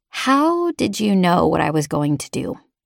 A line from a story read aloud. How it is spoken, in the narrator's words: I finally asked